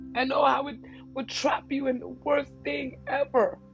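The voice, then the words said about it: Emotional, choked-up voice. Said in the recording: “I don't know why the hell I'm getting emotional right now”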